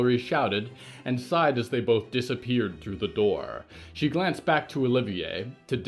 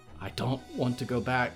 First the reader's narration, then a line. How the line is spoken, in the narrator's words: Danielle whispered, head falling back